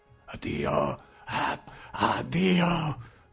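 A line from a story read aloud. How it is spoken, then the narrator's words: Hoarse shout. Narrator (Italian): gridavo, con voce roca di vecchio cane, la mia nuova voce ritrovata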